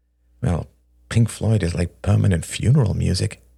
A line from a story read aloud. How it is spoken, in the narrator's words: sighed Chloe